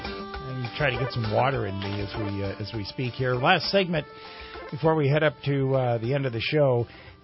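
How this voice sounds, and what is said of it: Slightly raspy voice. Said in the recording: “Sorry if I'm a little raspy.”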